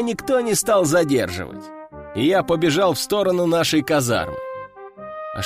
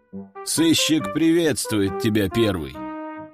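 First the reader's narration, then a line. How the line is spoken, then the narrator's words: Calm. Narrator (Russian): спокойно проговорил он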